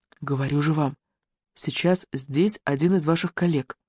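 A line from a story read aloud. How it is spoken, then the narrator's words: Whisper. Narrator (Russian): шептала она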